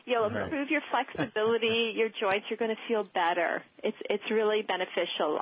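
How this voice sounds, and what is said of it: Canadian accent. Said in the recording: “if you can tell a little by listening to ... accent, she is, and I think I said you were Canadian or from north of the border”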